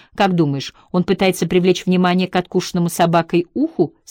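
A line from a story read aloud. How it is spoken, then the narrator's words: Plain. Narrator (Russian): спросила Хеттер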